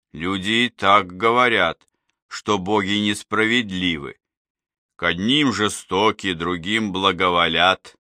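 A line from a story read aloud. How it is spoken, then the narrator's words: Plain. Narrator (Russian): сказал медведь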